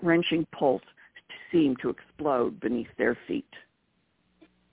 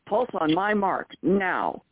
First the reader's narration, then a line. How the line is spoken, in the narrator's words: Will roared into the comlink